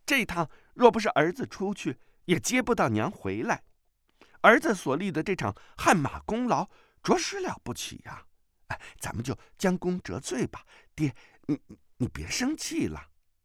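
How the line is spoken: Laughing. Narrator (Chinese): 段誉笑道

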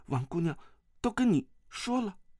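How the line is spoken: Startled stammering. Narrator (Chinese): 段誉吃一惊，段誉结结巴巴地说

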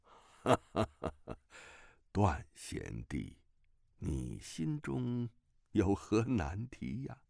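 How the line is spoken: Old voice, laughing. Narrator (Chinese): 一个苍老的声音笑道

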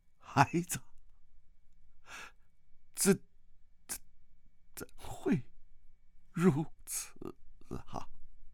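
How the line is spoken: Tearful cry. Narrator (Chinese): 段正明两眼已经哭得红肿，段正明叫了一声

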